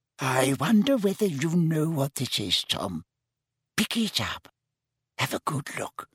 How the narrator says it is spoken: whispered Hepzibah

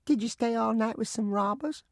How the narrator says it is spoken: My youngest sister piped up

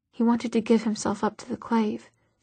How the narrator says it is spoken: she whispered, not sure who she was defending herself to

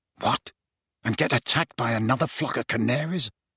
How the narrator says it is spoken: muttered Ron

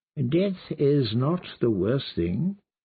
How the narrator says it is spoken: the kindly man replied

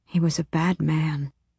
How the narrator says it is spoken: she whispered

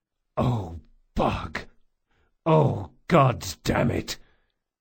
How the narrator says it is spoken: The big man groaned

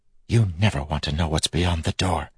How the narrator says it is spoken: Telson whispered

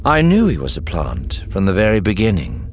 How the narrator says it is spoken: Thrawn said calmly

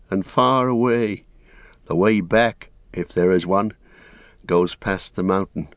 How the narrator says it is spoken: he sighed

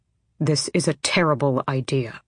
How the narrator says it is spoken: he murmured

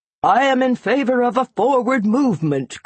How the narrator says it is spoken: cried one

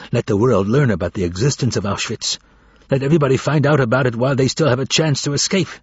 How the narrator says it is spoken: One of them was muttering

